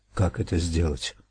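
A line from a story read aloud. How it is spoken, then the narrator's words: Muffled woman's question. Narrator (Russian): глухо спросила женщина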